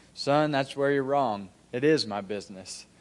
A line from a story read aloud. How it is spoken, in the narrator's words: I just calmly said